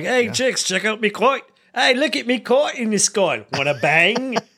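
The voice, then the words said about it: Put-on Cockney accent. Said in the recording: “I like his Cockney accent.”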